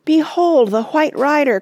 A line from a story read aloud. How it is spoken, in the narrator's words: cried Aragorn